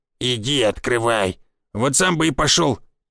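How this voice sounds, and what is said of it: Sulky, mocking imitation. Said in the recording (Russian): “насупился дед и передразнил меня”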